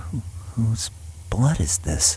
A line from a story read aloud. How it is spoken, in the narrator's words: Taylor asks himself with a whisper